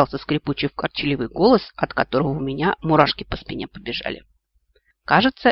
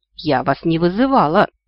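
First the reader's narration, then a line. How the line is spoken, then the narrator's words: Timid babbling. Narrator (Russian): пролепетала она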